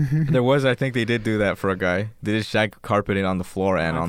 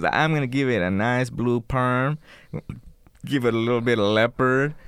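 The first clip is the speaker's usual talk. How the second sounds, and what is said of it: Imitates a Mexican-accented man. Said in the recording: “that's how he talked ... I'm assuming Mexican ... That was his accent.”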